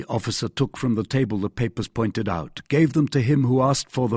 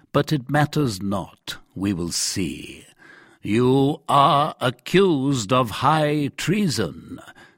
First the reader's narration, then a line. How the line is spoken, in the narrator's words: said slowly